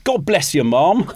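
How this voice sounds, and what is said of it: Cheeky Cockney urchin accent, Dick Van Dyke. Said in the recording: “Delivered in the cheeky accent urchin. Of... What, Dick Van Dyke? ... Full Pearly King”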